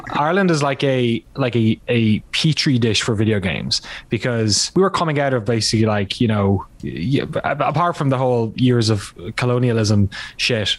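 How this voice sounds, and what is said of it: Irish accent. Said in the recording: “I grew up in Ireland, in case the, you know, name and accent aren't obvious enough”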